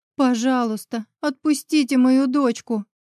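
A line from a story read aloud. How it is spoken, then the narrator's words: Whimpering. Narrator (Russian): проскулила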